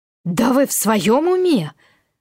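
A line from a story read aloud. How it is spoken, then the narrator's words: Indignant exclamation. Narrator (Russian): возмущенно воскликнула я, когда, наконец, обрела способность говорить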